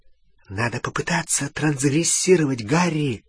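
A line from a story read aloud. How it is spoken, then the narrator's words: Whisper. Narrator (Russian): шепнула Гермиона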